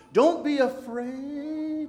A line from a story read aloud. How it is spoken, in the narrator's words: Vain Confidence hollered back to them